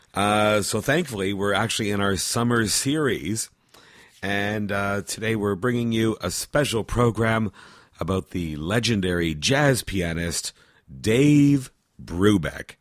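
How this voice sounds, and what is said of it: Hoarse, failing voice. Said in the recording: “I've actually kind of lost my voice, and it's starting to go more and more”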